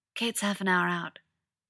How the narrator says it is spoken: whispers Clinton Barton

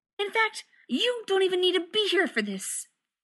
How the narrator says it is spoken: he snapped at John

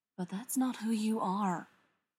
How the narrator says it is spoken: Charles whispers in her ear

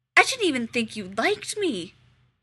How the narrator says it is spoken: he blurts

